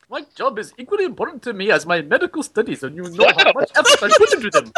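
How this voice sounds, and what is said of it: Put-on Indian accent. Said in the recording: “That's the accent I'd expect from you ... spent some time in India, apparently.”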